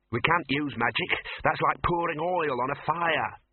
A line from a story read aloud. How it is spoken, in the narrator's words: snapped the Dean